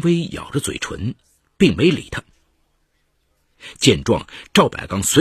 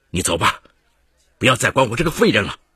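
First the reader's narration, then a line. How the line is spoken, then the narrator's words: Despondent shout. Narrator (Chinese): 情绪低落的赵百刚冲他吼道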